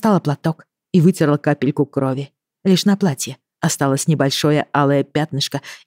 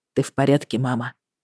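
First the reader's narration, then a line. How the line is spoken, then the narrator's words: Quiet question. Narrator (Russian): спросил он тихо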